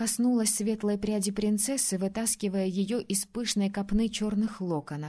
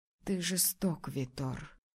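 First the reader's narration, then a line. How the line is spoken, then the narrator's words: Soft breathy voice. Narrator (Russian): тихо выдохнула Мартина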